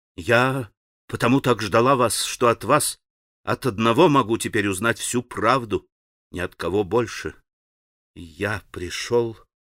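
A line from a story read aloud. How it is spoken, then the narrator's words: Confused muttering. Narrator (Russian): пробормотал Алеша, путаясь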